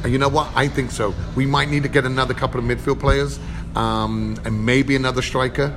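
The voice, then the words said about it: English accent with American twang. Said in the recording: “accent has a definite American twang”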